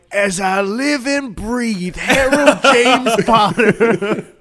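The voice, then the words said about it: Southern prospector accent. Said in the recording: “Southern prospector. Well, howdy.”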